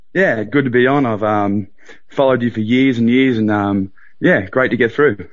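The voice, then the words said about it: Australian accent. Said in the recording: “Sounds Aussie to me. ... Very Aussie.”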